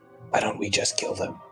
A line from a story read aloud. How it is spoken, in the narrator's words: whisper